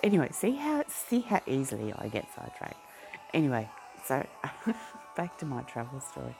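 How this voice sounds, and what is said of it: Broad Australian accent. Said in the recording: “I used to have a kind of very soft, almost English-type Australian accent, but it's been roughened up a bit since living in Brisbane, because now I have a broader Australian accent”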